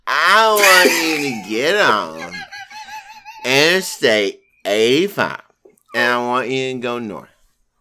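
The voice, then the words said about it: Imitates another person's voice. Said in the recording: “best Anna Nicole Smith impression”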